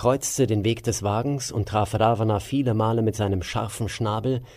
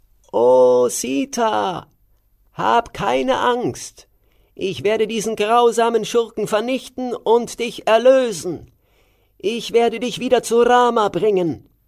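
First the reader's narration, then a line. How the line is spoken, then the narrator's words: Called out. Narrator (German): rief er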